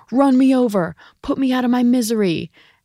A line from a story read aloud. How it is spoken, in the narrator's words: his dad yelling